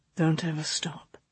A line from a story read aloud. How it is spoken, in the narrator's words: he said in a low voice